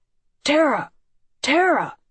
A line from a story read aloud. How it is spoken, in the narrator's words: he shouted, running ahead of me and Mother